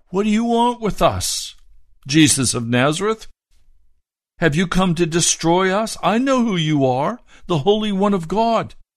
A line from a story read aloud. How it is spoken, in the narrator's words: a man in their synagogue who was possessed by an evil spirit cried out